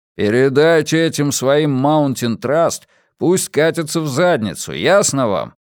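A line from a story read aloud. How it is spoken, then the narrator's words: Grumbling. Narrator (Russian): проворчал Иона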